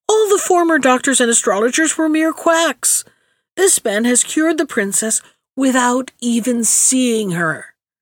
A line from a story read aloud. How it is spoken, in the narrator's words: he cried